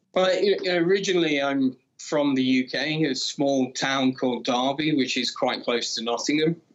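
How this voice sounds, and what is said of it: Non-Italian, UK English accent. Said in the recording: “as you can now tell from ... accent, he is not Italian”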